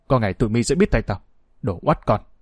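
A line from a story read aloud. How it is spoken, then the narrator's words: Angry threatening mutter. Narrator (Vietnamese): Hắn căm tức miệng lẩm bẩm đe dọa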